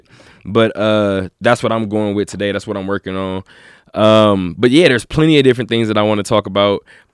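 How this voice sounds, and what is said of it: Slightly sick-sounding voice. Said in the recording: “hear it in my voice a little bit”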